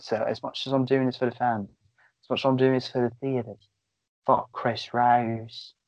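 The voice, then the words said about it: Put-on British accent. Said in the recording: “you have to do it in a British accent ... You gotta do in that Robert Pattinson accent”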